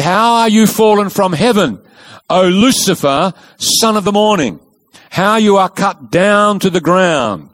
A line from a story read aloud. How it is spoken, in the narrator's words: he said